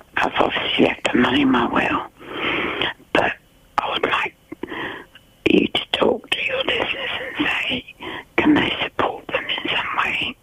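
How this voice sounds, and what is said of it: Whispering, strained voice. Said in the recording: “why are you whispering, or have you hurt your throat? ... I've hurt my throat. ... I've got a chest infection.”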